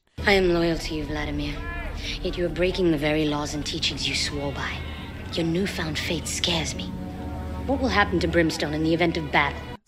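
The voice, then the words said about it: Speaks with a put-on accent. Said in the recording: “she's actually doing an accent”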